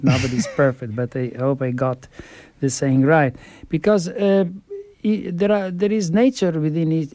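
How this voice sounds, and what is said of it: Italian-accented English. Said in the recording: “be compassionate about my Italian accent.”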